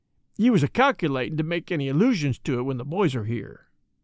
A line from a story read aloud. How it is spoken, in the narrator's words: he added, with a short sigh